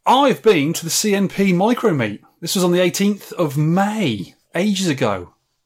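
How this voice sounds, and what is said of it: English accent. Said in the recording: “Someone asked me an American to say it in an English accent.”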